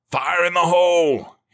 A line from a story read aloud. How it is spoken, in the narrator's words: he yelled